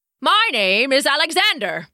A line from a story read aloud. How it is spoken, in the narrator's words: called out to the crowd